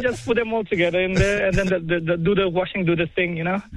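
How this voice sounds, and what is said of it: Speaks with a distinctive accent. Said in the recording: “if you tell me in that accent that you're doing the washing, that's all we need ... That accent, it's got us.”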